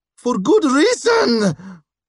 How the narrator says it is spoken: Gleb shouted

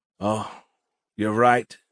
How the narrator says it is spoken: she sighed heavily

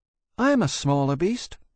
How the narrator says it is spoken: Elsie said, a little anxiously

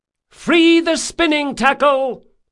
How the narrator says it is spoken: shouted Del Mastro

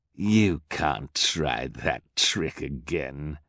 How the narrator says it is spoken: sneered

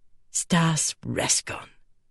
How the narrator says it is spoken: she murmured

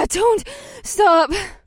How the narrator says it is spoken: Mahini panted with her mouth hanging open

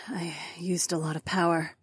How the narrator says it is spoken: mumbled

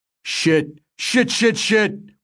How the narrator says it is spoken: we heard Shin yell

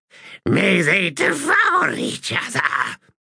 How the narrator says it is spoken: Shadow Throne giggled

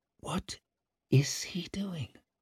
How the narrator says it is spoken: muttered Savine

